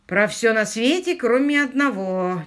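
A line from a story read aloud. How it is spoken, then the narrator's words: Displeased grumble. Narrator (Russian): недовольно буркнул Квиллер, не получив ответа на самый главный вопрос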